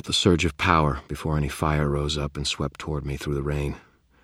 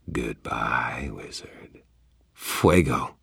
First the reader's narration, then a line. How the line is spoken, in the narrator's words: murmured